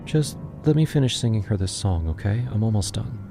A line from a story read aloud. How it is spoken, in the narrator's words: he whispered